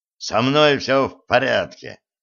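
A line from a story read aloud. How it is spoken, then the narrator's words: Bark. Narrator (Russian): рявкнул Блад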